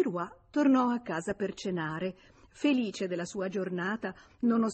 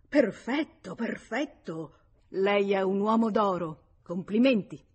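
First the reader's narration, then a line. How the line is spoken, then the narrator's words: Exclaimed. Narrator (Italian): Il direttore, come l'ebbe letto, esclamò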